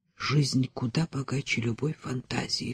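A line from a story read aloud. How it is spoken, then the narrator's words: Whisper in ear. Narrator (Russian): шепнул Кальман на ухо Верушке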